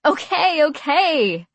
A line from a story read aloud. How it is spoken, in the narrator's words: I said shakily, weakening